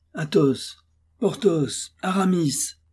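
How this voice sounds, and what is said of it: Deepening, commanding then irritated voice. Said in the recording (French): “il appela trois fois, en grossissant la voix, à chaque fois, de sorte qu'il parcourut tous les tons intervallaires entre l'accent impératif et l'accent irrité”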